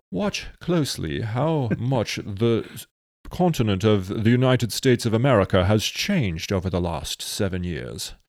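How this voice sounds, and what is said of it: Put-on British accent. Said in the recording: “Let me say this with a British accent.”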